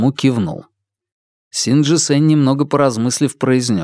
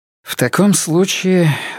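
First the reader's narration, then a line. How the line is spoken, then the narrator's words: Exhaled. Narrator (Russian): выдохнул Син Джи Сэнь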